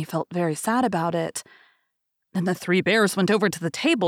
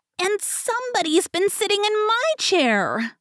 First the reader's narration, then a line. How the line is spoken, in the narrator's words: squeaked the Baby Bear in his shrill little voice